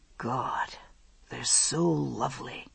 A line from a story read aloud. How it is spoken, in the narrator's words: he murmured